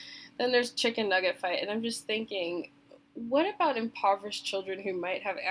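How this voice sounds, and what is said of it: Usual voice. Nothing is said of it.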